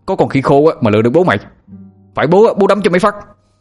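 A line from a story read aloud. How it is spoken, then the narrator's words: Shouted. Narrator (Vietnamese): Anh Thông hét lên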